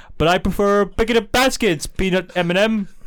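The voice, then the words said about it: Yogi Bear cartoon voice impression. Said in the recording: “Yogi Bear is your go-to impression... you do a Yogi Bear impression”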